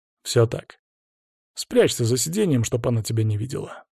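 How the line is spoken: Quiet speech. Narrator (Russian): негромко проговорил я

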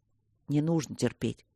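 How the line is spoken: Quiet. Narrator (Russian): тихо сказал Матвей

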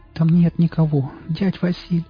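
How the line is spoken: Trembling voice. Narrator (Russian): дрожащим голосом сказала Настя

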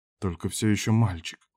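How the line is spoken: Weary. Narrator (Russian): устало ответил на это Олли

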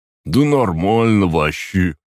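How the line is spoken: Deep thick bass voice. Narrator (Russian): пробасил Тимон низким густым голосом

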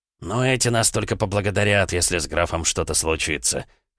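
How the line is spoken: Snorting. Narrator (Russian): хмыкнул президент

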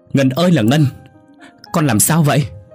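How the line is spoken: Woman crying out. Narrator (Vietnamese): Bà Lương ... la lên

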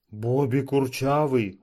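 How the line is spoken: Stunned exclamation. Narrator (Russian): воскликнул ошарашенный Том

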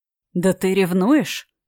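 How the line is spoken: Overly cheerful whisper. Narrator (Russian): Как-то чересчур весело прошептал этот невозможный тип

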